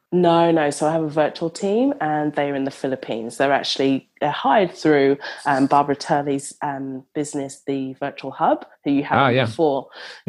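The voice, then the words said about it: Mixed London and Australian accent. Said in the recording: “So I am from London, but I live in Australia ... mix up your accent ... that's why it's totally screwed up”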